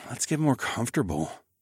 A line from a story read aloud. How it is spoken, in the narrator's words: I murmured